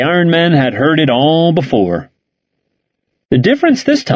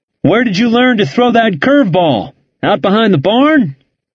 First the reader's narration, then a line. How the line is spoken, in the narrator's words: They taunted the Iron Men as country rednecks and shouted at Henneberry